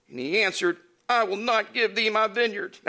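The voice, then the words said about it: Whiny voice. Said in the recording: “That's my whiny voice.”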